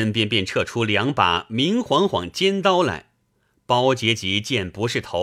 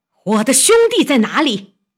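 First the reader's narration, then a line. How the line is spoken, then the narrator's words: Loud shout. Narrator (Chinese): 顾大嫂大叫一声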